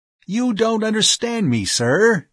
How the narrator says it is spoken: he said excitedly

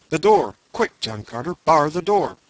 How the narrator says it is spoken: cried Tardos Morse

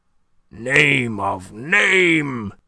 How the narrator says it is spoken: he groaned to the rather scared members of the company assembled there

